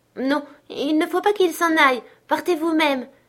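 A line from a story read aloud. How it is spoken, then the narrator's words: Little girl crying out tearfully. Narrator (French): s'écria la petite à travers ses larmes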